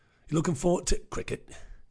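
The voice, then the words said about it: Odd put-on accent. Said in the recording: “Don't know what that accent is either.”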